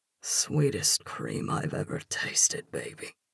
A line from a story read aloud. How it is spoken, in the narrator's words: he growls against me